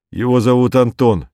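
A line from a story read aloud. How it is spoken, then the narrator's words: Loud. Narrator (Russian): громко, говорит Виктор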